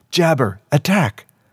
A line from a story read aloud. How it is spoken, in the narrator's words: turned crimson and shouted again